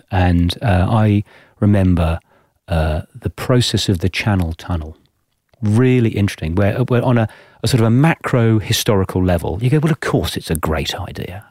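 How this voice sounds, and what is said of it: English accent. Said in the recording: “I'm a POM, obviously, from my accent”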